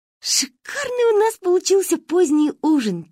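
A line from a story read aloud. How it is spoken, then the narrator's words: Quiet group giggling. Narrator (Russian): тихонечко хихикали мы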